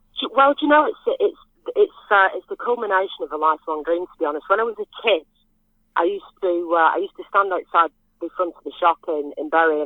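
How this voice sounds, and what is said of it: Northern English accent. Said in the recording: “I've never lost my accent. I mean, people tell me my accent's changed a little bit ... I've still got my nice northern Ramsbottom accent ... Yeah, you definitely are.”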